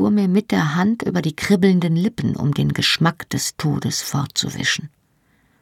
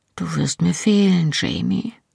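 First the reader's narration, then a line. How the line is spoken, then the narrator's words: Soft spoken. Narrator (German): sagte leise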